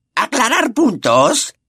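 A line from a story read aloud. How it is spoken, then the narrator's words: Shrieked. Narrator (Spanish): chilló Pettigrew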